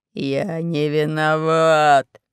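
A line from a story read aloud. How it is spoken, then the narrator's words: Growling. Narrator (Russian): рычал Панченго Мулити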